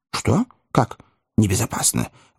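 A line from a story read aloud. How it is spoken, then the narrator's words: Alarmed exclamation. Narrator (Russian): воскликнул с большой тревогой мистер Тапман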